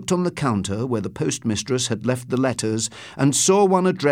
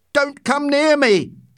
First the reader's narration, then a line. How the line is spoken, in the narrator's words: shouted